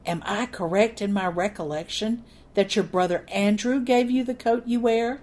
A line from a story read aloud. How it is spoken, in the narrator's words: I leaned toward Captain Matlock and whispered